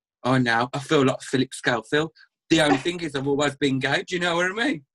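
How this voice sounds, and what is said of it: Birmingham West Midlands accent. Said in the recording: “you can probably tell from the accent I'm from like the West Midlands, Birmingham kind of area, black country ... people know straight away by my voice where I'm from”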